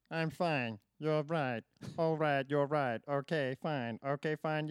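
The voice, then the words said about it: Robot voice. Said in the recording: “Can you do it in the voice of a robot?... got a better robot voice than me.”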